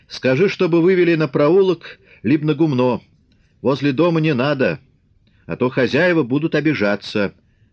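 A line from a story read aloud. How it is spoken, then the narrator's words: Shouted after them. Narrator (Russian): крикнул вслед им Фомин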